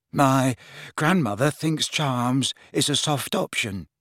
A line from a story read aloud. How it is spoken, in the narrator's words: mumbled Neville